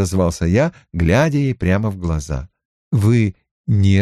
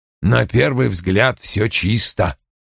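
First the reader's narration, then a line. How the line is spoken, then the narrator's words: Mutter. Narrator (Russian): пробормотал он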